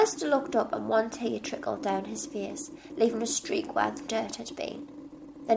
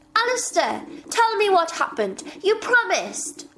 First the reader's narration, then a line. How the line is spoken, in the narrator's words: she shouted